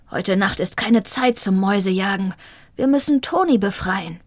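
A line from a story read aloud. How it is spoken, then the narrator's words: Growled. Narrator (German): knurrte Shiva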